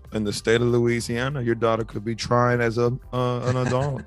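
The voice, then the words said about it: Imitates another person's voice. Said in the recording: “do a Viola Davis impression ... was solid ... That was not good ... was okay”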